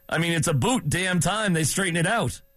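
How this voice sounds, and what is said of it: Put-on Canadian accent. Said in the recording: “I'll speak a little Canadian.”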